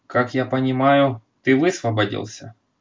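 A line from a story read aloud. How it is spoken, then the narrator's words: Crushed, dejected tone. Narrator (Russian): убитым тоном проговорил Кирби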